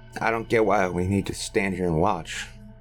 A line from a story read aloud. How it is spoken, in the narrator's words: muttered Roy with a scowl